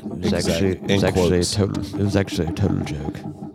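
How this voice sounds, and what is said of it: Put-on English accent. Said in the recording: “I had to say it in my English accent”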